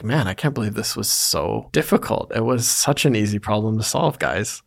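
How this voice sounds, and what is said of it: Sarcastic delivery. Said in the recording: “if you're very good at being sarcastic ... if the sarcasm is not obvious”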